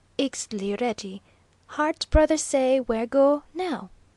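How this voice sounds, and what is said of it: Quaintly correct accented English. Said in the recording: “that quaintly correct accent”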